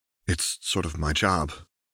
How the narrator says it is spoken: her companion replied with a quiet laugh

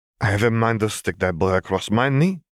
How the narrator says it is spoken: she grumbled

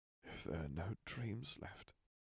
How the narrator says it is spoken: he murmured

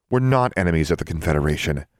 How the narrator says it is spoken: Alexandra said

